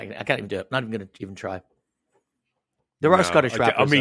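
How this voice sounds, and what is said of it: Usual voice. Nothing is said of it.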